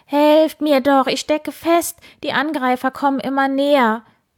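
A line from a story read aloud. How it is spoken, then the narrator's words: Desperate scream. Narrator (German): Wildi schrie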